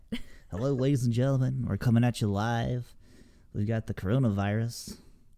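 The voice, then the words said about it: Mock radio announcer voice. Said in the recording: “do the radio voice”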